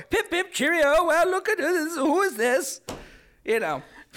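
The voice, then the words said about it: Mock English accent. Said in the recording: “make fun of you and your English accent”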